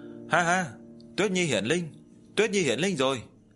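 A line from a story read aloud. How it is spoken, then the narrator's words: Joyful loud laughter. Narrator (Vietnamese): Diệp Chi Thu cũng không ngừng cười to, trong lòng trào nên một dòng nước ngọt ấm áp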